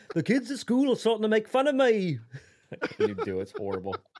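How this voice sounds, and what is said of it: Put-on English accent, Beatles-style. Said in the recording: “your Beatles impression ... Better than I can do ... It's the only English accent I know”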